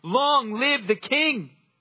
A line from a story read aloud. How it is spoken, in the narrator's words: all the people shouted and said